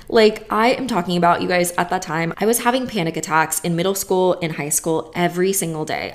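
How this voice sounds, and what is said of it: Hoarse, fading voice. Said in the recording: “I am losing my voice right now”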